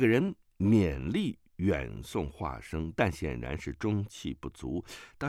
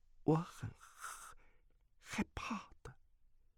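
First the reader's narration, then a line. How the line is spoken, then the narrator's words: Trembling voice. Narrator (Chinese): 阿朱颤声道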